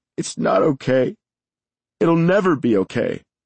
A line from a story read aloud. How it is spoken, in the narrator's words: through her sobs, she said